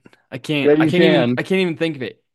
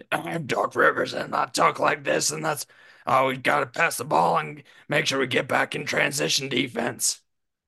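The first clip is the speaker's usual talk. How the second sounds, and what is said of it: Doc Rivers impression, coughing-like voice. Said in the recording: “Best Doc and Rivers impression ... He literally sounds like he's coughing while he's talking. ... That's your best Doc.”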